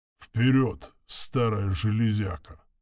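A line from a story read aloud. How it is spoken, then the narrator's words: Encouraging mutter. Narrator (Russian): пробормотал он, словно подбадривая собственного зверя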